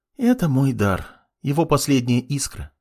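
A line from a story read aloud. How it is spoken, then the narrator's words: Sad sighing girl. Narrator (Russian): с грустью вздохнула девушка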